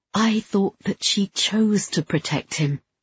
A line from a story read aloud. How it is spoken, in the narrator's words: I whispered